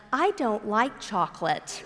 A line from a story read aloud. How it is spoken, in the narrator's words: very sweetly said